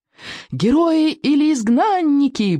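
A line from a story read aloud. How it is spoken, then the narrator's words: Devoted yelling boys. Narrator (Russian): преданно завопили в ответ 8 мальчишек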